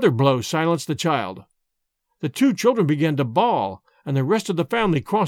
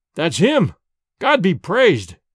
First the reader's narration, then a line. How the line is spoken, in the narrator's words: cried Sedenka, Petar, and their sister-in-law all at once